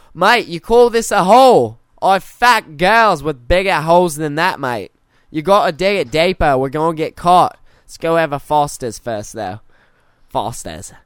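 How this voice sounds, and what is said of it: Put-on Australian accent, sounds British. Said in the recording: “My Australian accent sounds like my British accent.”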